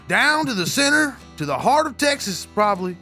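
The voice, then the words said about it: Put-on cowboy Texan accent. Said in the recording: “kind of picking up your accent there... you're just going to ride this cowboy thing... I'm just going to lean into it for a moment.”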